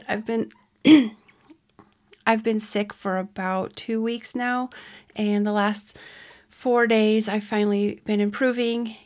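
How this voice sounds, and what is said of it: Voice sounds a little funny, sick. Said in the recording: “I have been sick, so if my voice sounds a little funny, that's why. I'm still getting over it.”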